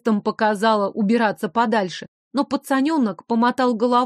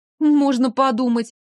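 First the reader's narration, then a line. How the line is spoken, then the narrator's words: Snorted. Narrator (Russian): я фыркнула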